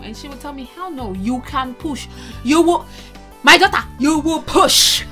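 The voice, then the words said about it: Put-on Nigerian accent. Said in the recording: “In the Nigerian accent.”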